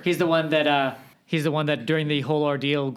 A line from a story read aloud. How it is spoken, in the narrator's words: Grimm shouted